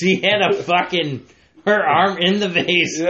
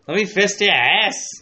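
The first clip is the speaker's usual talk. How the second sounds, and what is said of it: Solid put-on Australian accent. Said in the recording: “Australian accent,... but you had a solid one... Yours was pretty solid.”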